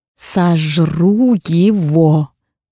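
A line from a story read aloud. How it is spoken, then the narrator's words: Growling. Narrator (Russian): начинает рычать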